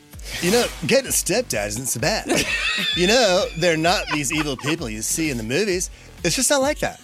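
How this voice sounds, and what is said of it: Mason Disick impression, surfer-like voice. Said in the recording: “In your best Mason Disick voice ... Is he a surfer? ... He's Malibu Mason.”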